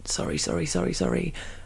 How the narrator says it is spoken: I'd run through to the kitchen mumbling

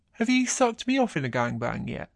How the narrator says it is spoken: grinning as he says

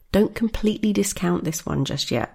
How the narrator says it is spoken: Rose said

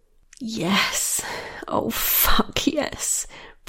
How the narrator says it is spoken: breathed Michaela

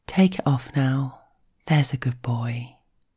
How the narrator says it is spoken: she says it softly in his ear

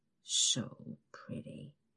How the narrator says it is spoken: he mumbles

